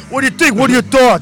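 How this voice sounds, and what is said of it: Put-on Bronx accent. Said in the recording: “this is my best Bronx accent”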